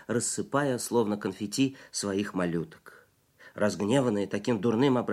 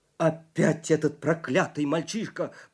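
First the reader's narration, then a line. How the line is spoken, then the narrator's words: Roaring. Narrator (Russian): проревел Ларри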